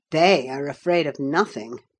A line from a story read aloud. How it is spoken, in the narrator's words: I grumbled